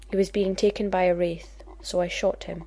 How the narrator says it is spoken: said evenly

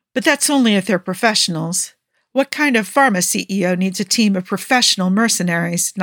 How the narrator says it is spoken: Niall asked with a scoff

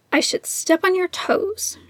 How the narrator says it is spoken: muttered

